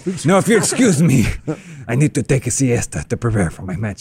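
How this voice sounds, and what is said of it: Put-on Spanish accent. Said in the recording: “a man wearing a dog mask. With a Spanish accent.”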